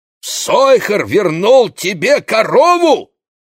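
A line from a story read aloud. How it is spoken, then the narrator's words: Exclaimed. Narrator (Russian): воскликнул Моше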